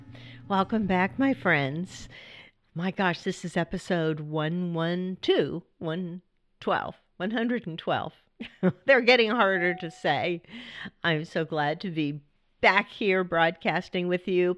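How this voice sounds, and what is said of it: Scraggly, slightly weird voice from cold. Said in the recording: “pardon my voice if it's a little weird ... somebody was sharing their cold because now I have it ... my voice is just a little scraggly. My throat's a little sore”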